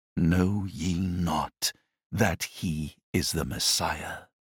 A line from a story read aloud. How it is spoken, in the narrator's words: said slowly, in a half-suppressed tone, as if awestruck by his own words